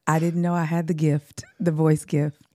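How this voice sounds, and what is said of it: Sultry, feminine voice. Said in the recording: “See her voice... talking in her sultry voice”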